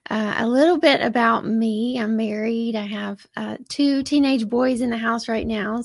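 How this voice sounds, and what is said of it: Southern US drawl. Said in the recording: “I am in Georgia, in case you hear the accent. That's where I'm at. I've got that southern drawl.”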